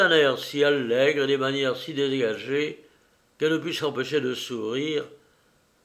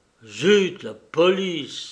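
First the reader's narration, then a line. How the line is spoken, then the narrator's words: Exclaiming. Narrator (French): s'écria M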